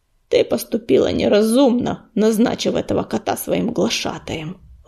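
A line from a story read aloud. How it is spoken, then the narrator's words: Growled. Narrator (Russian): рыкнул он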